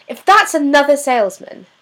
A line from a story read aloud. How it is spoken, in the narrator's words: snaps